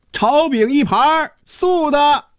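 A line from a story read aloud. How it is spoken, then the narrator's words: Theatrical Peking-opera call. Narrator (Chinese): 一声像京戏里叫板一样的喊声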